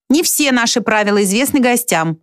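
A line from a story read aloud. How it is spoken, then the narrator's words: Yelling. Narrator (Russian): заорал он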